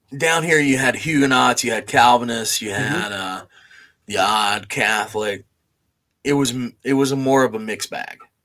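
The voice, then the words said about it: Southern American accent. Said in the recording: “and I are from the South, if you couldn't tell. ... Not that the accents gave anything away.”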